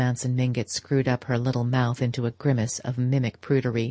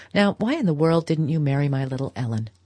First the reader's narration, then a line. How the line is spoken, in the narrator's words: Archer laughed